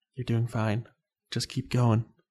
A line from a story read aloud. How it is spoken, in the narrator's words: whispered